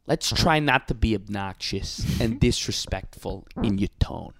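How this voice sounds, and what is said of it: Andrew Cuomo impression. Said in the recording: “I nailed my Cuomo impression, by the way. I got it down. ... Pretty good Cuomo, huh?”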